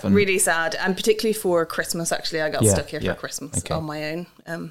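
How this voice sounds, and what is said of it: Irish Dublin accent. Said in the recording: “I am Irish, obviously, which is coming through in my accent, hopefully ... I'm from Dublin”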